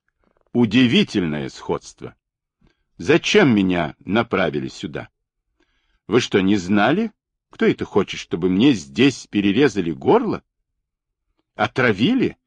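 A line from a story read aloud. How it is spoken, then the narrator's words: Irritated rapid-fire questions. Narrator (Russian): Хильда раздраженно забрасывает Вилли вопросами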